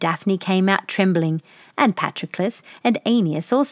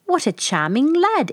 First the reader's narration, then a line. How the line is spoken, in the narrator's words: exclaimed the king